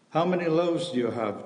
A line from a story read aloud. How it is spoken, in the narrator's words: Jesus asked